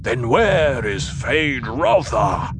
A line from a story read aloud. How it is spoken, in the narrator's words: The Baron roared